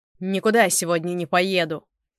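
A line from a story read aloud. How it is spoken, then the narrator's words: Shouted. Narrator (Russian): крикнул Степан Аркадьевич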